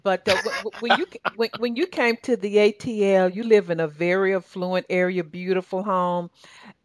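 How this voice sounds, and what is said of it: Southern American accent. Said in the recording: “they mark my Southern accent”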